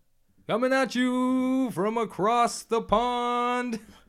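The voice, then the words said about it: Booming sports announcer voice. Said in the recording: “the announcer voice ... That's kind of almost like a Bruce Buffer”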